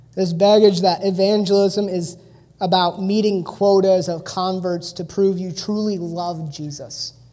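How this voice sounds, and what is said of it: Midwestern American accent. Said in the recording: “I have like a Midwest accent, so bag sounds weird when I say it.”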